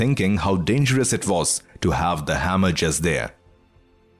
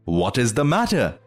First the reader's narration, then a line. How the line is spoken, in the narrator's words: cried her mother